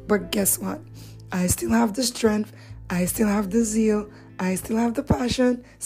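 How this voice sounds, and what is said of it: Strained voice. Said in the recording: “I know you can hear it. My voice is under some more pressure”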